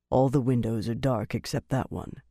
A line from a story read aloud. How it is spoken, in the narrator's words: he told Van Deen quietly